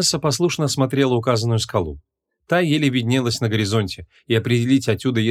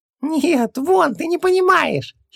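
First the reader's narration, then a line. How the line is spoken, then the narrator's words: Giggling. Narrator (Russian): хихикнул Хубаксис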